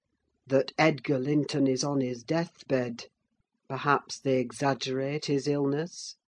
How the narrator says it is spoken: he added in a lower tone

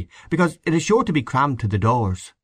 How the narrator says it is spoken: Power earnestly

